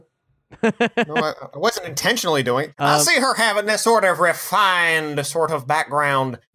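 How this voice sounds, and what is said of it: Usual voice. Nothing is said of it.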